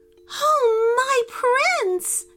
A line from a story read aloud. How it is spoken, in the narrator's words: cried the princess